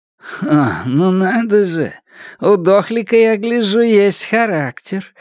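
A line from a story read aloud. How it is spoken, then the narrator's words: Laughing. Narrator (Russian): рассмеялся другой заключенный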